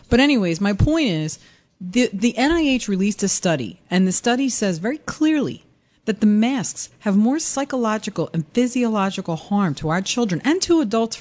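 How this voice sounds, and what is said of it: Philadelphia mixed with New York accent. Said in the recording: “out comes the Philly accent... It's a Philly mixed with New York.”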